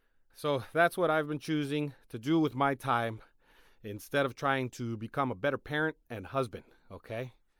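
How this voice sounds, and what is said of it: Out of breath, panting speech. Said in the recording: “I'm out of breath.”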